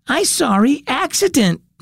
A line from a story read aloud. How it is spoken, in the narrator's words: Matt cried